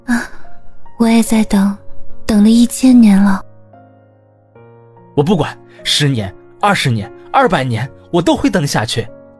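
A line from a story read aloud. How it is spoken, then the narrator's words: Smiling sigh. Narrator (Chinese): 温人暖微笑着叹气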